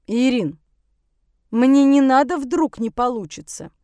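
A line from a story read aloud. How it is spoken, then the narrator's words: Stern. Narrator (Russian): строго сказала химичка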